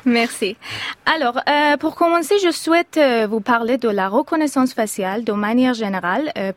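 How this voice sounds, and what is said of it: English-speaker's accent in French. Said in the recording (French): “je suis une doctorante anglophone, donc je m'excuse pour mon accent.”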